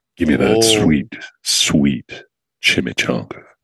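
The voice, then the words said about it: Low-pitched comic character voice. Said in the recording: “Do your low voice ... do a low chong ... Chimichanga is normally a little higher”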